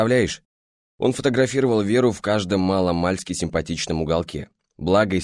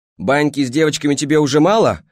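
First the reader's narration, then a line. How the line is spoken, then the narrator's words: Furious yelling. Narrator (Russian): орала взбешенная Марина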